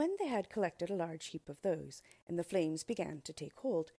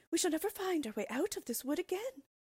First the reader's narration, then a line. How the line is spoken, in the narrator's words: cried Gretel, beginning to weep